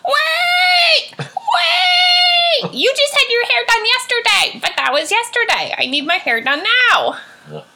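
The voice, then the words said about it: Loud impression of secretary characters. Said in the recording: “Sorry for any headphone users, but this is my impression of the secretaries... That's my impression.”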